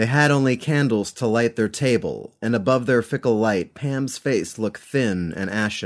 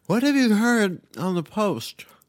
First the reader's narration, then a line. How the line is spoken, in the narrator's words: asked Pam, chewing and slurring her words